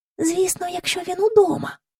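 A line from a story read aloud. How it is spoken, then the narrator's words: Whispered. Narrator (Ukrainian): пошепки сказала Джейн до Майкла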